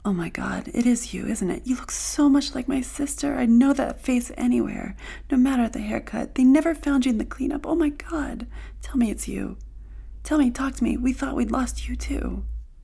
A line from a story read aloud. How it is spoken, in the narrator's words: said in a hushed voice